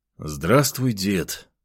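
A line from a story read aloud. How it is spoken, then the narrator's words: Tired. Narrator (Russian): устало произнес я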